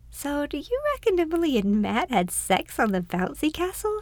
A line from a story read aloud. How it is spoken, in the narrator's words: Charlotte giggled